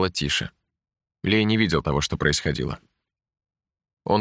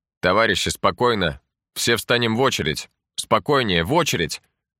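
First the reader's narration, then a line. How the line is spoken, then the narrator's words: Shouted. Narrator (Russian): Кто-то крикнул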